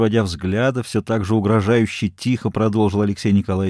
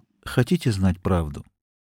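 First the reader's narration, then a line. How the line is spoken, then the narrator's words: Quiet question. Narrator (Russian): Он тихо спросил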